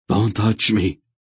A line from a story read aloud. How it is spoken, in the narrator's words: Relg gasped automatically